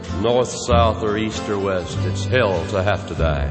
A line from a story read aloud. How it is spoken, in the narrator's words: someone muttered